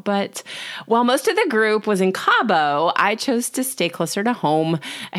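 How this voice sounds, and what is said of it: Sick, sore-throated voice. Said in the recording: “I have a cold. ... if I sound funny, my throat is really sore right now”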